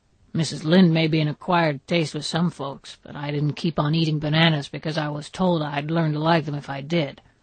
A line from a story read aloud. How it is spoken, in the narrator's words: growled Mr